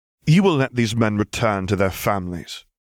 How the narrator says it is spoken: the serpent said calmly

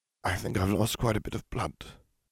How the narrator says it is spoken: he murmured

